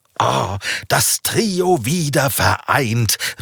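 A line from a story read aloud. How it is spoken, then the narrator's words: Called out. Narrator (German): rief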